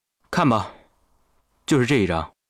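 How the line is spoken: Calm, flat. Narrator (Chinese): 淡淡的说

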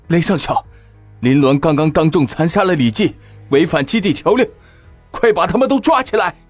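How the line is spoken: Frightened loud shout. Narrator (Chinese): 连大气都不敢喘 … 朝着雷霆大喊道

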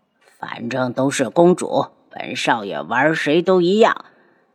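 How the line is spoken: Low voice. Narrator (Chinese): 有人低声道

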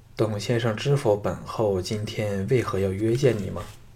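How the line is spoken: Cool, detached queen. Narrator (Chinese): 金王后淡淡的说

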